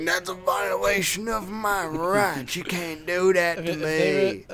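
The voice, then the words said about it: Mocking put-on accent. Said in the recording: “stereotype with the accent”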